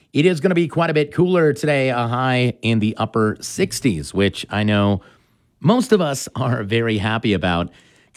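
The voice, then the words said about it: Slightly hoarse voice. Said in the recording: “this smoke is kind of messing me up. I'm a little hoarse today”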